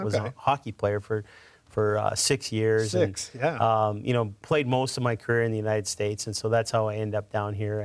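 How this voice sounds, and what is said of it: Canadian English accent. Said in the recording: “I noticed by your accent that, to quote some of my friends, you ain't from around here. you grew up in Canada.”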